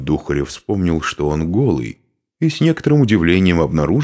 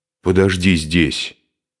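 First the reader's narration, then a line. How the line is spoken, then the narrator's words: Said angrily. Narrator (Russian): сердито сказал он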